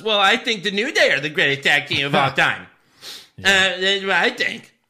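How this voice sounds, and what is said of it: Bitchy Michael Cole impression. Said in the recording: “good Michael Cole impression ... You put a lot of bitch on it.”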